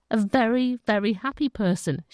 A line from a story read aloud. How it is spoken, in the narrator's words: she says